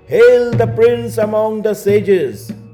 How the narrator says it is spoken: The student shouted

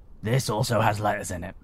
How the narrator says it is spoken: he said gruffly

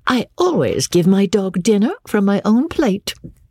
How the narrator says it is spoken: said Rebecca, laughing mischievously

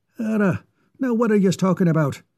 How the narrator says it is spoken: asked McSquizzle, somewhat impatiently

